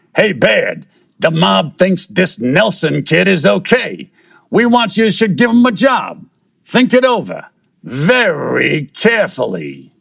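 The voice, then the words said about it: Gangster goon character voice. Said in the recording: “in my best goon voice”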